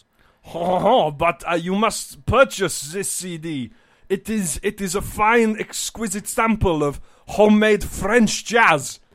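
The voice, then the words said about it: Put-on French accent. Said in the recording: “Let me slip into a French accent.”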